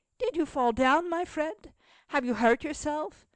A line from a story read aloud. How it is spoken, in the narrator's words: inquired the child kindly